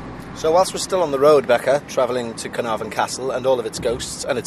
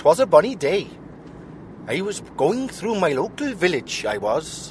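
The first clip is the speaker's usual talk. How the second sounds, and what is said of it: Put-on Welsh accent. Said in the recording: “Should I do it in a Welsh accent?... I don't think you can do a Welsh accent... That's me trying to be Welsh... That's Welsh.”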